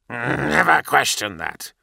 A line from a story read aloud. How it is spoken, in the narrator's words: growled the Astartes